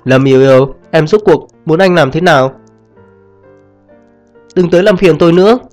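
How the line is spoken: Nearly shouting. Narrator (Vietnamese): gần như gào lên

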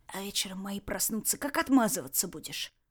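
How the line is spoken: Hoarse wheeze. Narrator (Russian): просипел Ред

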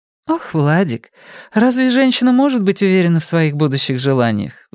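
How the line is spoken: Sigh. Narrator (Russian): вздохнула

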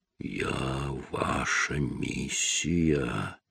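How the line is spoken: Pained, suddenly guttural mutter. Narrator (Russian): пробормотал Чарли, и боль, возникшая было у задней стенки горла, переместилась вниз, и его голос вдруг стал утробным

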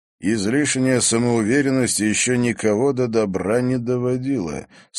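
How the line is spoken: Calm reply. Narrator (Russian): спокойно ответил Егор

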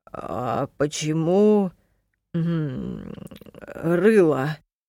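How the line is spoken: Uncertain question. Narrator (Russian): неуверенно спросил капитан

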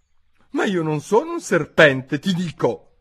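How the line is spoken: Exclaiming. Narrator (Italian): esclamò Alice

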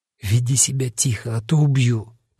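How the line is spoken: Whispered. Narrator (Russian): прошептал

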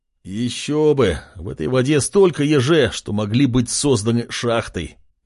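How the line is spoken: Moaning. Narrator (Russian): простонал король

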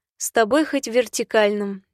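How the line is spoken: Nervous laugh, hesitant. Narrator (Russian): нервно рассмеялась и нерешительно добавила

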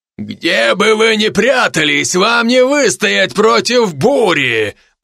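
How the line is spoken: Deep bass voice. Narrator (Russian): пробасил он

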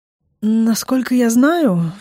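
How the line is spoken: Rather hoarse. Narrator (Russian): вдруг говорит он, тоже довольно сипло

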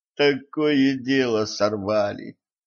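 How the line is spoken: Groaned. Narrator (Russian): простонала Кэтран

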